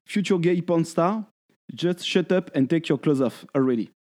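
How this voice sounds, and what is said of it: English spoken with French accent. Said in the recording (French): “je te le fais en anglais avec mon accent”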